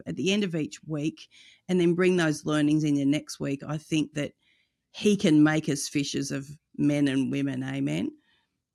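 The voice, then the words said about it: Speaks with a distinctive accent. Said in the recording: “your great accent”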